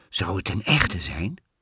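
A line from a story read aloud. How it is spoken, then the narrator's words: Queen whispering back. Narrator (Dutch): fluisterde de koningin terug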